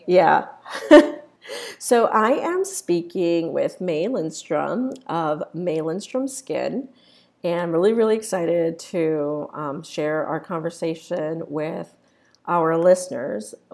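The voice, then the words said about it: Congested voice with a cold. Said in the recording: “I have a little bit of a cold, so if you hear some sniffling”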